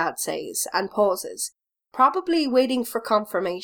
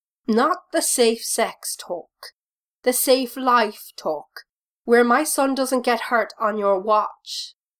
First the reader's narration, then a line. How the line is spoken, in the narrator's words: his dad sighs and says